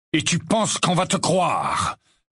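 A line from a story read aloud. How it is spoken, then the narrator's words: Thundering voice from behind. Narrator (French): tonna une voix derrière Harry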